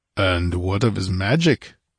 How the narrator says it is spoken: rumbled the Cimmerian

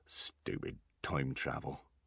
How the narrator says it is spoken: muttered the dwarf

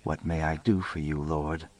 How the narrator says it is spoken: lowered my voice and beseeched

